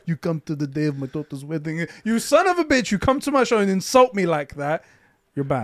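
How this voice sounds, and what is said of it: Gruff mobster impression, Greek-Turkish-sounding accent. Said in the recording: “that impression. You took Marlon Brando, whoever it was, and made him like Greek or Turkish or something.”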